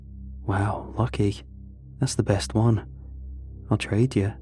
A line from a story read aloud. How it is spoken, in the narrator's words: he muttered